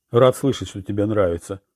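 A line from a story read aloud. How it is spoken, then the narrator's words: Dry reply. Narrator (Russian): сухо ответил Урбан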